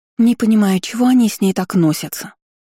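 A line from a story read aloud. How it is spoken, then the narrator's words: Indignant fairy. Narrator (Russian): Возмущенно морщила носик фея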